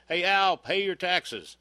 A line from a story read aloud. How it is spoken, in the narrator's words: the one guy hollered